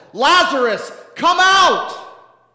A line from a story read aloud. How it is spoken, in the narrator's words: Then he shouted